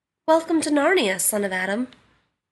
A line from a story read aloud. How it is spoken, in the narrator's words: said the beaver